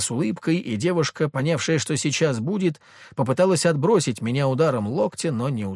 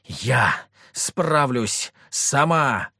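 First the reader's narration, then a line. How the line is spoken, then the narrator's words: Snapped retort, woman. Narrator (Russian): рявкнула в ответ Мальвина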